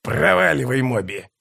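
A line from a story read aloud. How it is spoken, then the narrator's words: Hoarse rasp, violinist. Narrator (Russian): прохрипел скрипач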